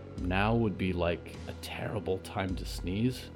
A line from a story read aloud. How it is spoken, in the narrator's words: Riot said, breathing very quietly from the hallway door